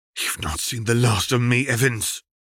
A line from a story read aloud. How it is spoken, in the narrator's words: Cassiopeia spat